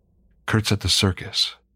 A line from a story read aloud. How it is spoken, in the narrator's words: she said